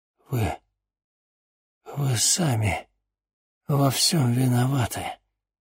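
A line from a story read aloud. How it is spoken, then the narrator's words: Barely audible whisper. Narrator (Russian): чуть слышно прошептал чернокнижец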